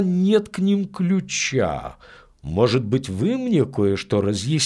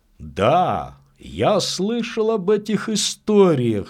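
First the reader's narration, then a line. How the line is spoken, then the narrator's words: Said thoughtfully. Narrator (Russian): сказал Чейз, задумчиво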